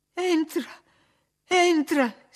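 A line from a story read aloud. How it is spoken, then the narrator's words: Sobbing. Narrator (Italian): singhiozzò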